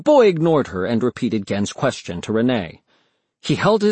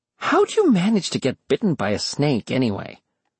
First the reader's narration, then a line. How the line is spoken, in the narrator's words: Kaori said, trying to make her tone as condescending as possible